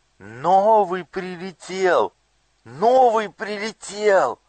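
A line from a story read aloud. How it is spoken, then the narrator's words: Youngest child shouting. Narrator (Russian): самый младший из них закричал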